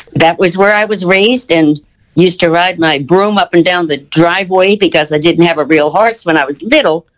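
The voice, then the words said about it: Noticeable regional American accent. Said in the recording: “that accent of yours does not sound like a Colorado accent ... you still have an accent for sure”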